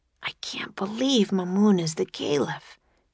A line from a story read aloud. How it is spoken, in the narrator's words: whispered Jack